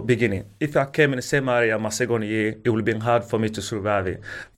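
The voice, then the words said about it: Strong non-native English accent. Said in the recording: “even now you guys struggling to understand my accent”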